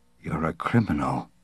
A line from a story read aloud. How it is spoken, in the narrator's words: the clerk mumbled